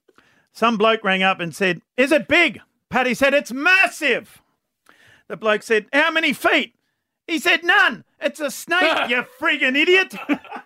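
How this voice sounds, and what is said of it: Bad put-on accent telling joke. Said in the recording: “Bad accent”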